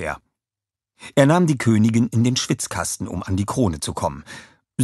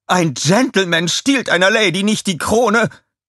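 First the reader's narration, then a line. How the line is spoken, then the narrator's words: Screaming. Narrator (German): schrie sie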